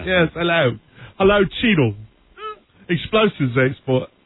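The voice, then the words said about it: Don Cheadle's mock British accent. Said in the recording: “Cheadle with a British accent.”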